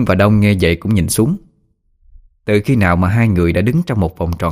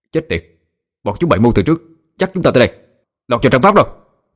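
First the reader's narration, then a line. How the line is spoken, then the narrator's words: Bellowing. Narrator (Vietnamese): Đông gào lên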